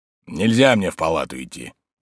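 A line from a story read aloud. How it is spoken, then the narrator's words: Gloomy. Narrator (Russian): мрачно проговорил Тарантьев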